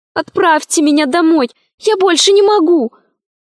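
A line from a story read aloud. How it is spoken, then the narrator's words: Desperate pleading. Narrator (Russian): взмолилась она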